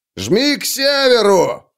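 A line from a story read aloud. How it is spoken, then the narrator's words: Shouting up to others. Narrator (Russian): крикнул он тем, кто уже был наверху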